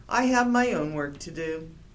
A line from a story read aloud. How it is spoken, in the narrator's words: sighed